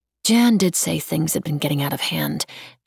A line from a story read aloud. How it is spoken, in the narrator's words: she muttered